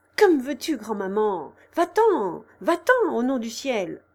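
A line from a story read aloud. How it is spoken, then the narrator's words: Exclamation. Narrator (French): s'écria-t-il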